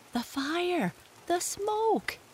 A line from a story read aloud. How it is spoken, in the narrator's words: gasped Jesse